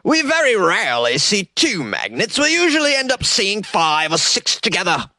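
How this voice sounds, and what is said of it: Attempted London accent. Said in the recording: “I'm doing an accent because this is London, but I don't know a London accent”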